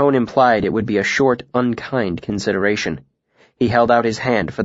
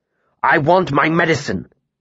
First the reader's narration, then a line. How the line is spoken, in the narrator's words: he snapped